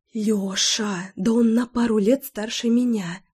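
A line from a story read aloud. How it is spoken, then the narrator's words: Shocked whisper. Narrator (Russian): Зашептала я, пребывая в истинном потрясении от такой новости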